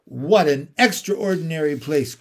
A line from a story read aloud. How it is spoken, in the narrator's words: cried Lucy